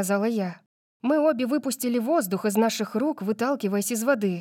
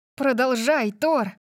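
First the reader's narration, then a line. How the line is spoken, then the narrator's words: Exclaiming. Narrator (Russian): воскликнула я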